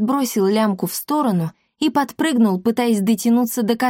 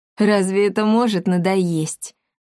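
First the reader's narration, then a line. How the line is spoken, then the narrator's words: Cat purring. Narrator (Russian): промурлыкал кот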